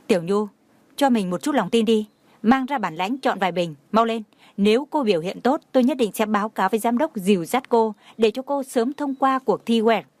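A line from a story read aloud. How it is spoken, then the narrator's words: Stern. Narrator (Vietnamese): Trần Mạn Hồng trách móc nhìn Tiểu Nhu một cái mới nghiêm nghị nói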